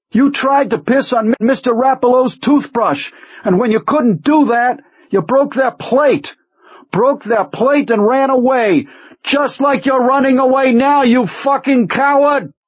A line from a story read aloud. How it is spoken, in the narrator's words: knowing only that it was his last chance, he screamed